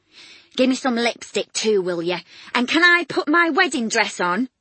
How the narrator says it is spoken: Sister Atkins shouted over from the door

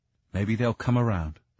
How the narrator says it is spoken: he said kindly

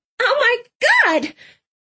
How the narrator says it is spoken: Clove screeched

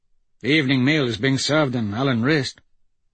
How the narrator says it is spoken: Malcolm said, in a wistful tone

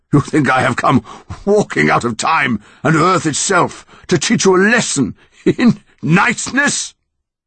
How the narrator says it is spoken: It laughed louder and louder again, until the ground was shaking

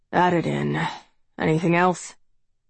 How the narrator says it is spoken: Daddy mumbles

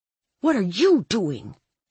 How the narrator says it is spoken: I hissed

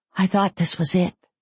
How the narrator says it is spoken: I confessed in a whisper

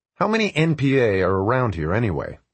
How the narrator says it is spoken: I said

